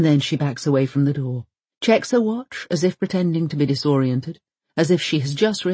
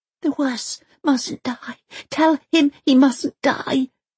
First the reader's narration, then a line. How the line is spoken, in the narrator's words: whispers Elsa